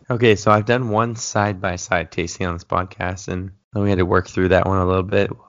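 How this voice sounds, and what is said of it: Hoarse, raspy low voice. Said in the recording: “my voice is my sexy voice. I've been fighting some laryngitis this week ... Don't get too used to the sexy voice”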